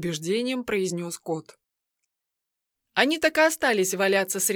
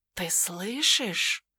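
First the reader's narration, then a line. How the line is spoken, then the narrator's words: Whispered question. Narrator (Russian): шепотом спросил он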